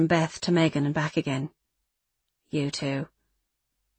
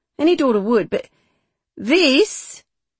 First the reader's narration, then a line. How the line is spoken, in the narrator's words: she said, her voice sharp with disgust